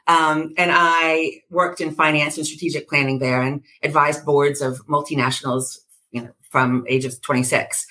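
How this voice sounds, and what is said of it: American drawl accent. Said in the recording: “I was raised in America, as you can hear from my drawl.”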